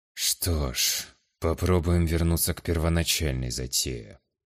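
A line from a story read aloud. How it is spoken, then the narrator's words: Muttering to himself. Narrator (Russian): пробормотал себе под нос Атерна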